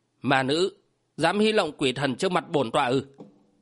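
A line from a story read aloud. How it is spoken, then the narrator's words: Harsh, stern voice. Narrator (Vietnamese): Vô Thần trưởng giáo gằn giọng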